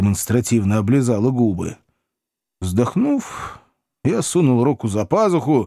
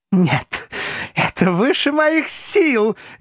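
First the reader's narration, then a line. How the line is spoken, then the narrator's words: Nervous laughter. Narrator (Russian): нервно расхохоталась парижанка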